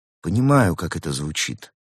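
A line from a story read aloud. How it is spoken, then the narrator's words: Gentle remark. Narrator (Russian): мягко заметил Улис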